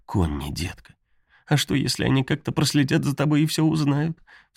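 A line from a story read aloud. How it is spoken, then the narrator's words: Sobbing. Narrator (Russian): Всхлипнула она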